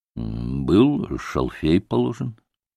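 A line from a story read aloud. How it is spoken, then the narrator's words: Dull mutter after pause. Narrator (Russian): тупо посмотрел на опросчика и, помолчав несколько, пробормотал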